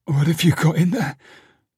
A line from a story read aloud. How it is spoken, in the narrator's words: She croaked